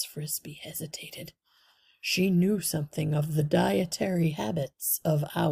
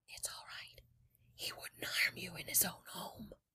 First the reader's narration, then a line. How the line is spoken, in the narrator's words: Jeremy whisper very softly